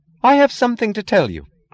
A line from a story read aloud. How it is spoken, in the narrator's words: cried Lillian with the sound of that impotent rage which wishes that words were brass knuckles